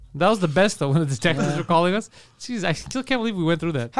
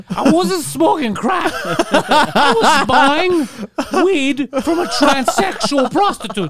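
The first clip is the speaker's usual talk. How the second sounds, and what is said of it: Impression of a friend, voice breaking. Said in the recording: “Why is his voice breaking? ... That's my impression of Guido.”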